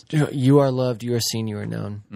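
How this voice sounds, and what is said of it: Quiet, soft-spoken voice. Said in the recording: “doing the quiet voice”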